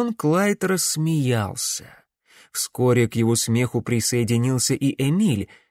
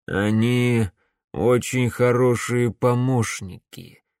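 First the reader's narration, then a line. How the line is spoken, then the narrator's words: Gloomy pronouncement. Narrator (Russian): мрачно изрек барон Клайд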